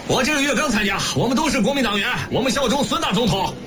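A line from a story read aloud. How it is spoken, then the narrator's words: Young worker shouting. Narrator (Chinese): 青年工人大喊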